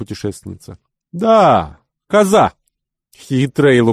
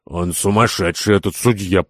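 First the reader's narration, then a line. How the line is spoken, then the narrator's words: Muttered. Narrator (Russian): пробормотал господин Кирабан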